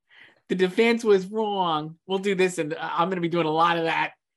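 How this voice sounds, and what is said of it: My Cousin Vinny accent. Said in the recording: “You have to do in the accent. ... My favorite movie, My Cousin Vinny.”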